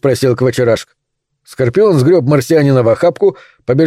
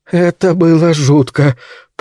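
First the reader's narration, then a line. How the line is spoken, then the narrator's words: Groaning. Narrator (Russian): простонал марсианин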